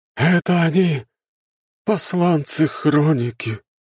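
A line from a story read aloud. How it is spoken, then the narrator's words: Slightly sad, grandiose. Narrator (Russian): Немного грустно, но снова очень пафосно сказал Афанасий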